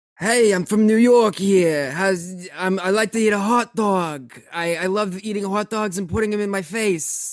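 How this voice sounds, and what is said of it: Put-on Queens New York accent. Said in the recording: “I did a bit of a Queens accent for Spider-Man. So let me see if I can just give you a little taste right now.”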